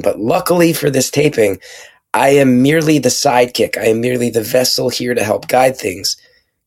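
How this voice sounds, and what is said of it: Strained voice, losing his voice. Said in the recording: “I'm losing my voice, as you can hear”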